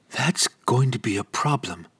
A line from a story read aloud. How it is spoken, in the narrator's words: muttered to herself